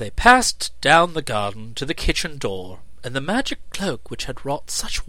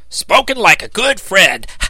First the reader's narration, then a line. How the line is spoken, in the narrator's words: exclaimed the dog